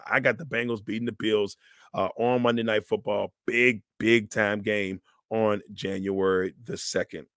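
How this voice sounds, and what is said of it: Hoarse, fading voice. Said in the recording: “my voice is just disappearing on it, brother. It is fading fast.”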